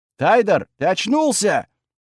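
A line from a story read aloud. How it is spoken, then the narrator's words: Surprised, joyful shout. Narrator (Russian): крикнул Белобрысый, то ли с удивлением, то ли с радостью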